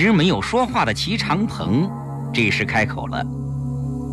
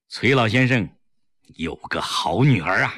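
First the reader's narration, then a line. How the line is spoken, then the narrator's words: Sudden admiring sigh. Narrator (Chinese): 另一个民主人士忽然感叹道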